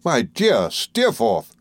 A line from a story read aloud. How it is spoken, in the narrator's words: cried I